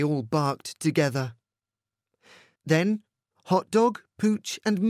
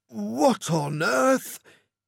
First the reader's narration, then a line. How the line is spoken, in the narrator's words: He spluttered